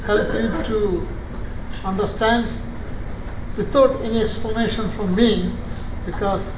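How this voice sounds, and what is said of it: Speaks with a noticeable accent. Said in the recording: “it will be difficult for you to follow me because of my accent”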